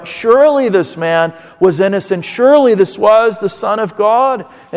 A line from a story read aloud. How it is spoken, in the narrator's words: The centurion cried out